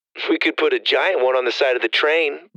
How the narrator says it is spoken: Lydia laughed

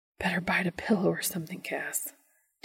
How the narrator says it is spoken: Dean whispers

